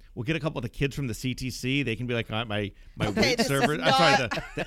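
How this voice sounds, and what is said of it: Usual voice. Nothing is said of it.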